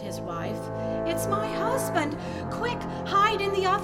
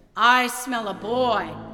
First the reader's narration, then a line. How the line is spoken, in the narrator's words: the giant roared